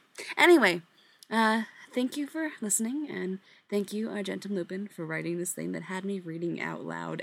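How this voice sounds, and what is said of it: Slightly gravelly voice from cold. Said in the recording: “you can still kind of hear it in my voice a little bit ... if my voice sounds a little bit more gravelly than usual, it's because I am, in fact, partly swallowing gravel”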